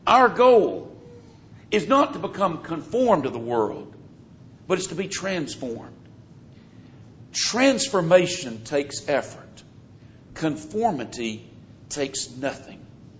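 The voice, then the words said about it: Southern American accent. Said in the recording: “I speak with what some would consider a southern accent ... I grew up in the South”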